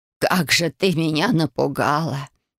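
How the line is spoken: Whispering. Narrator (Russian): прошептала Ба

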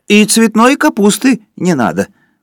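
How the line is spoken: Shouted. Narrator (Russian): крикнул Горбовский

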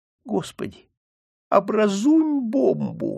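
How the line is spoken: Pleading. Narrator (Russian): взмолился он

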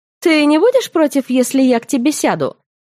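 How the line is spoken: Cheerful question. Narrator (Russian): весело спросила блондинка

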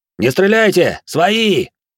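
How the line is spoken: Shouted. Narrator (Russian): Крикнул

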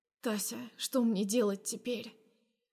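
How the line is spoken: Quiet. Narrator (Russian): Произношу я тихо

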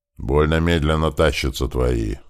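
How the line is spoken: Displeased grumble. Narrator (Russian): буркнул недовольно старшему обозу Мацею командир конной охраны Мариш

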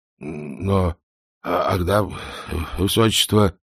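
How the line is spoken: Mumbling. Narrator (Russian): пробормотал он

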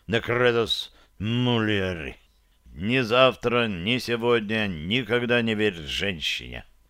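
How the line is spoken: Grumbling. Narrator (Russian): проворчал он

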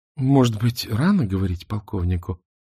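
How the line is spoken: Gentle. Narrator (Russian): мягко подвела его Мона

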